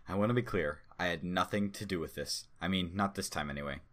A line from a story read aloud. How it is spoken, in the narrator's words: Kondraki answered